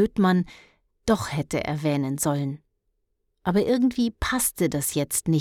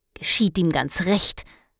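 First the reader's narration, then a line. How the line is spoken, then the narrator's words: Hissing angrily. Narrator (German): fauchte Dennis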